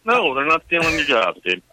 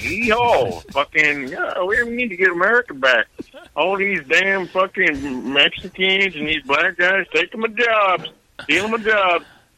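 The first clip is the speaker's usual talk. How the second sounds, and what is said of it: Put-on redneck voice. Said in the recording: “you do a redneck voice”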